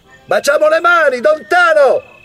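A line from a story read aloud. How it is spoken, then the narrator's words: Kept shouting, resisting restraint. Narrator (Italian): aveva invece continuato a gridare, facendo resistenza ai tentativi del fratello di farlo desistere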